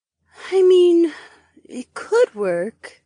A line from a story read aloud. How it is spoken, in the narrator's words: the bear girl breathed